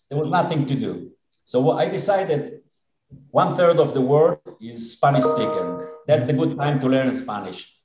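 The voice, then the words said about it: Israeli accent. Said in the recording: “Israeli accent”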